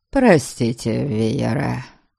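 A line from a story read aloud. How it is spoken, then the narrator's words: Grumbling. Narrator (Russian): пробурчал он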